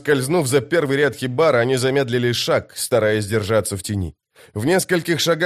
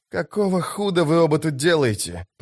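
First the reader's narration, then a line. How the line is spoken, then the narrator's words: Hiss. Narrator (Russian): прошипел он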